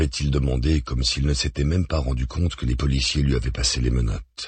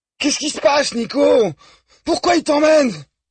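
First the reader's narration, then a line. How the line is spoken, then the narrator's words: Hysterical scream. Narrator (French): avait hurlé la fille à demi-hystérique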